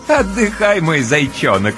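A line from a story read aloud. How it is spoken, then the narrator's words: Playful chuckling. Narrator (Russian): с игривым хохотком разрешает Ночка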